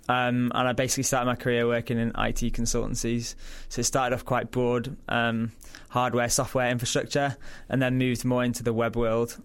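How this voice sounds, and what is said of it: Yorkshire English accent. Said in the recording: “As you can probably tell from the accent, I'm not from Australia ... Originally from Yorkshire in England.”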